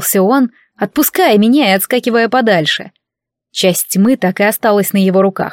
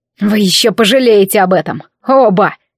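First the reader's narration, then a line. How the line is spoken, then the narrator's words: Angry hiss. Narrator (Russian): Злобно прошипел Ред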